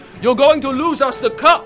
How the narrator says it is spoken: he bellowed

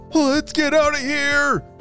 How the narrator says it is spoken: Tommy called out

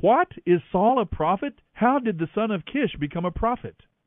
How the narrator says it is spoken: When his friends heard about it, they exclaimed

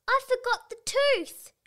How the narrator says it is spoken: she cried

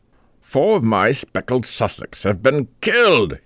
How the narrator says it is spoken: he exclaimed

